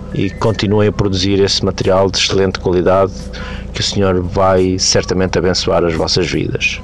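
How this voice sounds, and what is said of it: Portuguese accent with hissing s. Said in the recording (Portuguese): “Ai, que sotaque lindo! Olha como chia, gente! ... Mas é o chiado original de fábrica, né?”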